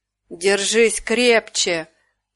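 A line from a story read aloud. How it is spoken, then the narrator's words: Growl. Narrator (Russian): прорычал он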